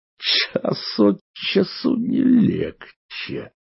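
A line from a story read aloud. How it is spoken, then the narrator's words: Muttered through clenched teeth. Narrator (Russian): процедил дядя сквозь зубы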